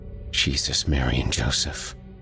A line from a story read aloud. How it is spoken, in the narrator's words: whispered one trepidatious step at a time